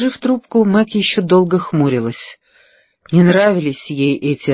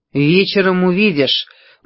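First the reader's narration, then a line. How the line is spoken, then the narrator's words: Gloomy summary. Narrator (Russian): мрачно резюмировала Мэг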